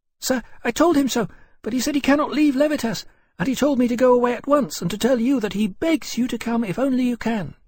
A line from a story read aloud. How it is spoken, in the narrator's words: she said very quickly